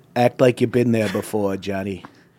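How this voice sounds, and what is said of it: Imitates another person's voice. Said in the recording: “He sounds like Trump a little bit... That's how I can do a Trump accent”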